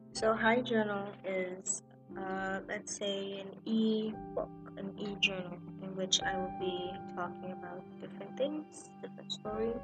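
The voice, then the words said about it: Flat, monotone voice. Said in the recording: “my voice sounds a bit monotone”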